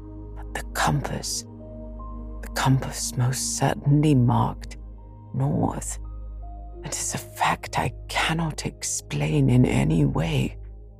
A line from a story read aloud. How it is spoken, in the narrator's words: my worthy uncle muttering to himself